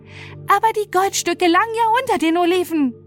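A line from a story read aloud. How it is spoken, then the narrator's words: Shouted. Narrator (German): schrie Fatima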